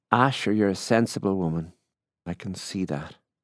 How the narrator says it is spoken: he said

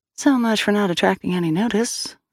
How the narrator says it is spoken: Sal said under her breath

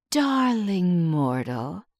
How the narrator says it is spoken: the genie purrs, saccharine voice dipped in venom

